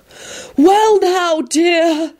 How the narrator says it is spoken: Sybil began in a soothing voice

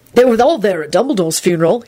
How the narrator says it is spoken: he said cheerfully

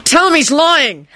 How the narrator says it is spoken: Harry demanded

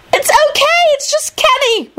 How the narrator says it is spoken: Rosie squealed

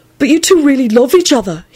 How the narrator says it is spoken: he blurted out

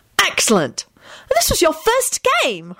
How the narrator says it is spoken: Hermione called out happily

